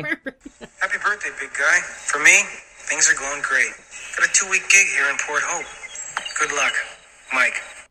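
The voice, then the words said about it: Strong Canadian accent. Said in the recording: “His accent is so Canadian.”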